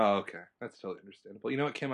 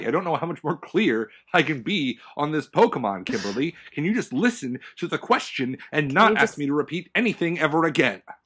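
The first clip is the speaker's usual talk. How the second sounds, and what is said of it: Yelling, angry raised voice. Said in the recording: “sorry for yelling”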